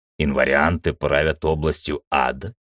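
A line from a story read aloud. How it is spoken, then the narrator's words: Skeptical snort. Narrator (Russian): скептически хмыкнул я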